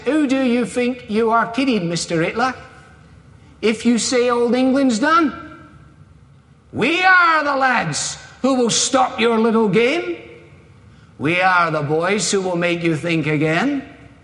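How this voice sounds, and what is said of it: Put-on Cockney accent. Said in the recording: “in a Cockney accent”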